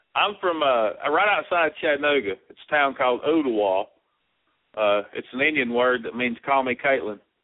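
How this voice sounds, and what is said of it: Regional accent like a Kentuckian's. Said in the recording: “Y'all got a similar accent. He's from Kentucky.”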